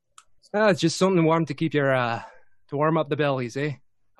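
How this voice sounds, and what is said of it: Put-on accent. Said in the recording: “do the accent.”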